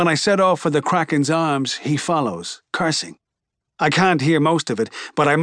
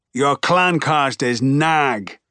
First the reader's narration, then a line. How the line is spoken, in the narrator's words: Dilo shouts